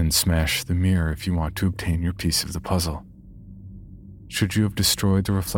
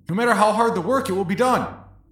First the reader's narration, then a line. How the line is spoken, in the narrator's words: quickly scream